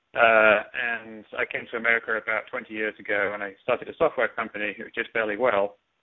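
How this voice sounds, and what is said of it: English accent. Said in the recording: “I'm from England. You can probably tell that by my accent.”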